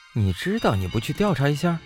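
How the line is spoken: Flat, indifferent. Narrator (Chinese): 宋哲淡淡道

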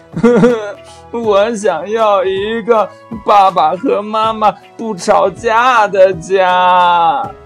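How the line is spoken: Crying while speaking. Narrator (Chinese): 兔宝宝边哭边说

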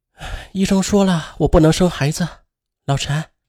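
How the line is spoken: Sad, sighing. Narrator (Chinese): 姚晶回到家里对丈夫叹息着说

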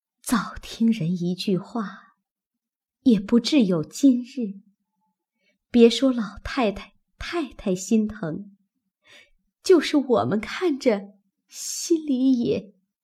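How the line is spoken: Breaking off mid-sentence. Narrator (Chinese): 刚说了半句，又忙咽住，自悔说的话太急了

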